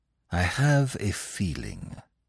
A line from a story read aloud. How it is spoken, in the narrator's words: he said slowly